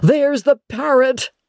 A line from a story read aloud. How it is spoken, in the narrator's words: cried Scrooge